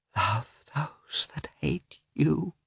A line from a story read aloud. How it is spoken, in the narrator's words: whispered Dolly, shamefacedly